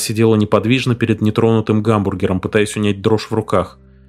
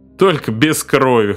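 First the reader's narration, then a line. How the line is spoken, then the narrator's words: Short laugh, bartender. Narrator (Russian): хохотнул бармен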